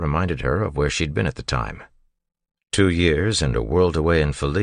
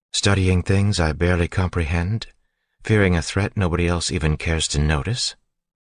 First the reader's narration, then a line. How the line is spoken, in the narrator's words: She sighed